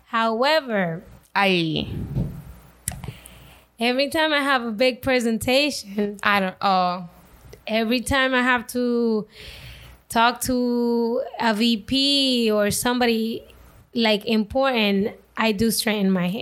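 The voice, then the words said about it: Latina accent. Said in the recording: “one of the only Latinas in my department ... My accent”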